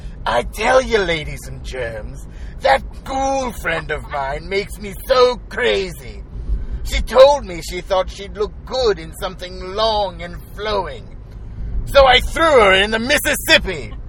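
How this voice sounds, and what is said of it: Comedic character voice. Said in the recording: “I can't do it without the voice. It needs the voice. ... You need to do the voice.”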